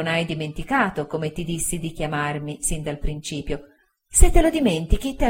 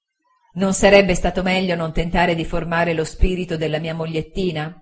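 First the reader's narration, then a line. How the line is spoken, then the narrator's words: Self-mocking laugh. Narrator (Italian): dissi, ridendo di me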